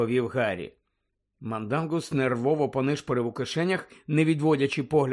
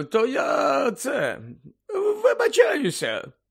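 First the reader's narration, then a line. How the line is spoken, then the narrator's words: Hoarse rasp. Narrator (Ukrainian): прохрипів голос з тієї смердючої хмари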